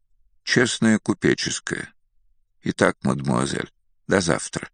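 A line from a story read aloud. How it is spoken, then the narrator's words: Even voice. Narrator (Russian): Ровным голосом произнес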